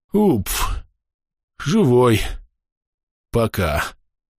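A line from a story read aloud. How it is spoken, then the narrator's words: Labored gasp. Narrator (Russian): С трудом выдохнул Андрей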